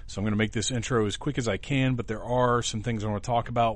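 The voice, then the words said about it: Sick, strained voice. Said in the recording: “it is a virus and it is contagious ... my voice is not super great”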